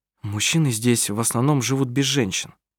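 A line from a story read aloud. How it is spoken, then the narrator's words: Plain. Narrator (Russian): сказал Адриан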